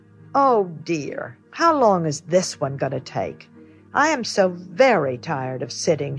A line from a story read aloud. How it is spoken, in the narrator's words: said with a sigh